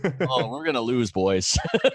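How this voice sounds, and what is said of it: Bad put-on Canadian accent. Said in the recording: “this bad Canadian accent”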